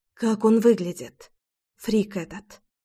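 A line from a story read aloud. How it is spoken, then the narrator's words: Whisper. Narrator (Russian): прошептала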